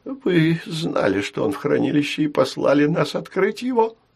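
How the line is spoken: Moaning. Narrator (Russian): простонал Белда

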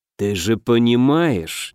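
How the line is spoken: Reluctant drawl. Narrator (Russian): неохотно протянул Аш

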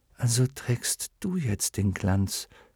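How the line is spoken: Murmur. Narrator (German): murmelte dann

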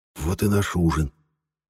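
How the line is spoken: Whispered. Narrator (Russian): Шепотом сказал

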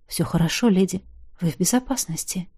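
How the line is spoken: Said quietly. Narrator (Russian): тихо сказал

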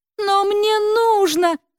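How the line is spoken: Pleading. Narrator (Russian): взмолилась Света

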